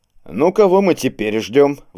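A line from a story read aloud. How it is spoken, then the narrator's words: Indignant exclamation. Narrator (Russian): возмущенно взмахнул руками Серегин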